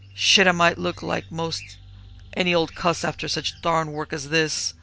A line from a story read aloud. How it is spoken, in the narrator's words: growled David, but his face was white